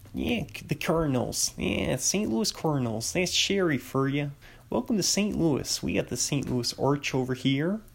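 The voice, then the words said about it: Attempted St. Louis accent. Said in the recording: “St. Louis is a fun. It's like a fun accent ... I'm not I'm not a very good person with accents ... I was gonna try to do it there”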